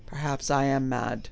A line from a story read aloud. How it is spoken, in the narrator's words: he said meekly